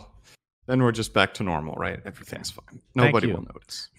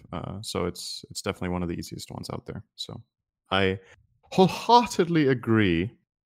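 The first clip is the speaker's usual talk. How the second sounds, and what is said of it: Bad put-on British accent. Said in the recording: “a terrible British accent”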